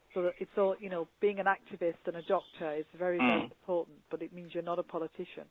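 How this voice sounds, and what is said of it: Accented English over poor phone line. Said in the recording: “I don't know if you can understand that with the accent and the quality of the phone call”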